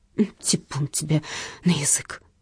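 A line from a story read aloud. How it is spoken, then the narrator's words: Undertone. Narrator (Russian): вполголоса проговорила Галкина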